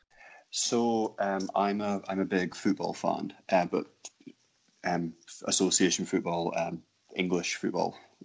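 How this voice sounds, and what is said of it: Non-American accent. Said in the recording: “our American listeners can understand with the accent. He's probably not from America.”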